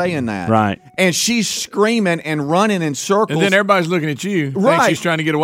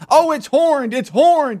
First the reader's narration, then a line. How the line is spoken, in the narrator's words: she starts screaming